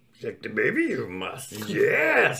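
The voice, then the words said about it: Yoda-style character voice. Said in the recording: “Doing impersonations. ... talking like Yoda”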